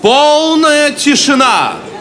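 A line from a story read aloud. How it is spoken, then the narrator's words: Shout. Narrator (Russian): первый вельможа крикнул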